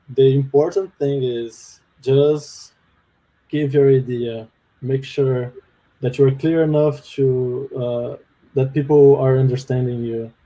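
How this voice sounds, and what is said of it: Brazilian-accented English. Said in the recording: “when you're in Brazil, you don't actually get to practice the English ... I still have the accent after 4 years. My accent is not perfect.”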